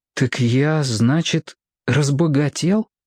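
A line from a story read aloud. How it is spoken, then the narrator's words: Babbling. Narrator (Russian): пролепетал Роб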